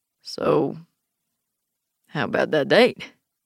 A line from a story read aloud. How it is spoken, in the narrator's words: Cedar says, trying to sound cool, but his voice breaks a little